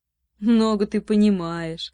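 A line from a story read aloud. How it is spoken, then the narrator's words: Laughing. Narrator (Russian): засмеялся принц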